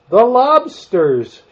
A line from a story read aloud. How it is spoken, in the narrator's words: shouted the Gryphon